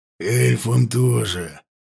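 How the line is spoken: Hoarse. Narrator (Russian): сказал он хрипло

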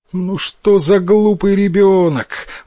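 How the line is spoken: Mother exclaiming. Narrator (Russian): воскликнула мать

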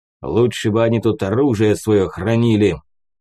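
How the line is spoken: Growled. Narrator (Russian): прорычал прапор

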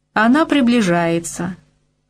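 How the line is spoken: Cheerful. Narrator (Russian): весело продолжал Усем

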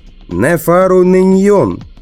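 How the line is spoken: Shout. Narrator (Russian): выкрикнул я

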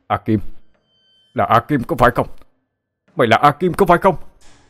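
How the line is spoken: Sudden shout. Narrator (Vietnamese): có người hét lên

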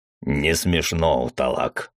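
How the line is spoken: Growled. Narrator (Russian): рыкнул Мизраил

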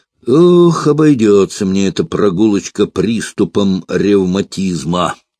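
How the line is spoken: Sighing. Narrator (Russian): вздохнул Франц

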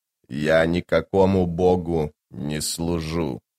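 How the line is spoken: Growl. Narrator (Russian): прорычал Тлен

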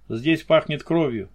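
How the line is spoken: Curt remark. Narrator (Russian): бросил он

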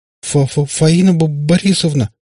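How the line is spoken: Sudden stammer, pale. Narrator (Russian): начал вдруг заикаться побледневший Иван

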